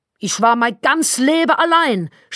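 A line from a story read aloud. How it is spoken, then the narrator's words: Shouting over phone. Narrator (German): schrie sie mich am Telefon an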